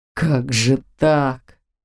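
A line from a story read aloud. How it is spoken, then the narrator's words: Crushed mutter. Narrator (Russian): убитым голосом пробормотал папа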